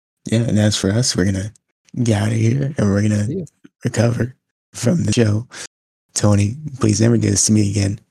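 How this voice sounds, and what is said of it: Worn-out, failing voice. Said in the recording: “My voice is going. It wants me to stop talking.”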